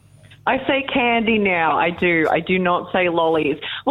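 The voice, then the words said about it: Australian accent softened with slight American. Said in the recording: “I can note about a 10 to 15% American accent coming from you ... My accent has definitely become less Australian in the years that I've been here ... The accent has definitely softened”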